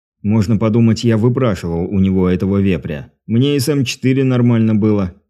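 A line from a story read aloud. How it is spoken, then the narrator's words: Displeased grumble. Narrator (Russian): недовольно пробурчал Дмитрий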